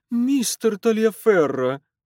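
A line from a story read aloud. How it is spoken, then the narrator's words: Pleading. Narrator (Russian): взмолилась миссис Марье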